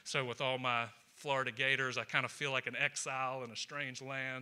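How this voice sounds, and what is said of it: Georgia Southern US accent. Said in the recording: “I'm from Georgia. If you can't tell, I'm not from around here. The accent is from Georgia.”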